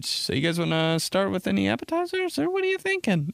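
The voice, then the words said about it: High-pitched fake-polite server voice. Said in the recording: “It's always like that high voice. You know when your voice gets high that you're just being such a piece of bullshit ... work voice”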